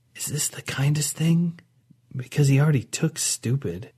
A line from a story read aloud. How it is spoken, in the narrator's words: whispered to Nava